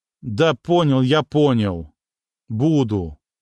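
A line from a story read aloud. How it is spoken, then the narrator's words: Glum. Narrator (Russian): уныло произнес Дитрих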